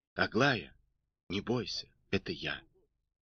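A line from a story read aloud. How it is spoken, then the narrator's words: Quiet reply. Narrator (Russian): Карабанов тихо ответил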